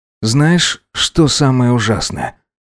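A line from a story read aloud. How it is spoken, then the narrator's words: Sighing. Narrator (Russian): Вздохнув, сказал Гидеон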